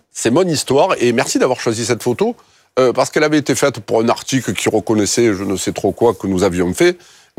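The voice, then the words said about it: Strong Marseille French accent. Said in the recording (French): “mon accent, c'est un peu l'ail ... c'est d'où je viens”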